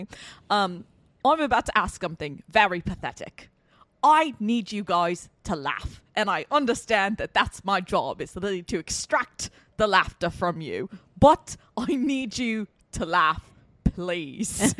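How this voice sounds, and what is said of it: Deliberately bad put-on British accent. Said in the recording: “Let me attempt a British accent. ... this is going to be a terrible British accent.”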